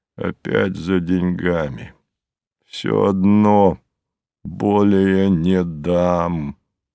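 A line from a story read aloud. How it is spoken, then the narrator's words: Calm, slightly hoarse voice. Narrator (Russian): спокойным, чуть хрипловатым сосна голосом проговорил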